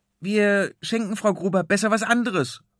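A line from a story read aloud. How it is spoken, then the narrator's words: Calling out. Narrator (German): ruft er dem großen Konrad zu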